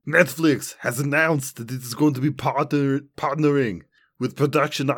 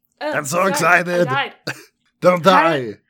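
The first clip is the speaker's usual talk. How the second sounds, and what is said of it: Imitates another person's voice. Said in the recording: “this one's going to require an impersonation ... I knew that you were going to do Arnold before you even did him.”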